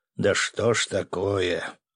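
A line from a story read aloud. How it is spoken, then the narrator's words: Weary theatrical sigh. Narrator (Russian): Главный разведчик империи устала или театрально вздохнул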